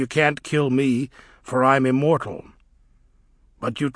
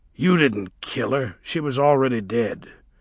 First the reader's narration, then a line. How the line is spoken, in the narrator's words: said the dwarf calmly